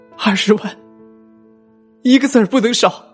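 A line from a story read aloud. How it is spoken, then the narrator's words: Choked, tearful. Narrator (Chinese): 我妈的泪水终于是控制不住的奔涌出来，她哽咽着说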